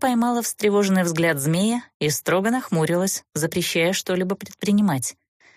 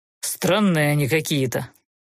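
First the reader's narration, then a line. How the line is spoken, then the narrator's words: Grumbling. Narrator (Russian): пробурчал Фалер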